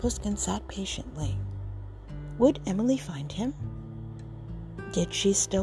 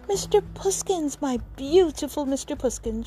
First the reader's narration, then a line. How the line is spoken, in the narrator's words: cried